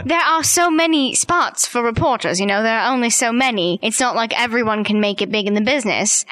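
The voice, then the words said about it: British accent. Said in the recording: “She sounds a little less British than I do.”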